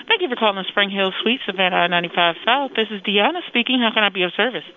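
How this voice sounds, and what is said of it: Strong customer-service phone voice. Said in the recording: “You sound like you're doing your phone voice is really, really strong.”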